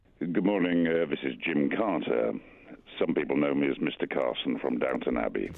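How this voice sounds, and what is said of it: Rich proper radio voice. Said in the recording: “That voice. That's a proper radio voice.”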